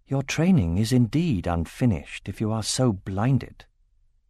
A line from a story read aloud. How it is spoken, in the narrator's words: Nasuada said in a murmur low enough that no one else could hear